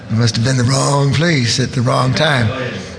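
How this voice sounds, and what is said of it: Imitates another person's voice. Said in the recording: “doing a terrible impersonation of him”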